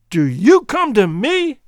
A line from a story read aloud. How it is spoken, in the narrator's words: he shouted